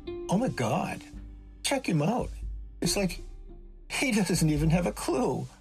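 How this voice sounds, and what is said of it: Chirpy Valley Girl voice. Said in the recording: “I heard a Valley Girl voice chirp”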